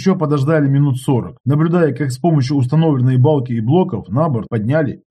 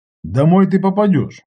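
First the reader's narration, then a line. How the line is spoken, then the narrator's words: Plain. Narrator (Russian): ответил я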